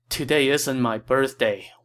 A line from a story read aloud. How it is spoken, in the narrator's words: Wang Yun replied